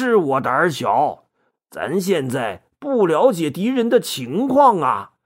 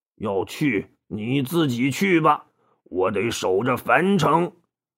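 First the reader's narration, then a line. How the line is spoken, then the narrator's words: Muttering. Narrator (Chinese): 李典嘟囔着说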